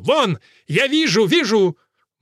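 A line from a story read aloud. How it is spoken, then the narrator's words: Shouted. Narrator (Russian): Монах Мердо закричал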